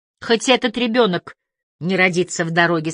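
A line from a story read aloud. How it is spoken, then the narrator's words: Plain. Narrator (Russian): сказала она Элайзе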